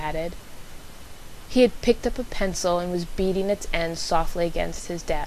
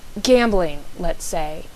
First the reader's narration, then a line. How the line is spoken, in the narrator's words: he added hastily